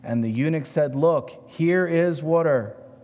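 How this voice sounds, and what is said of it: Pronounces water as wooder. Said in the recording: “Don't make fun of my accent. It's spelled W-O-O-D-E-R.”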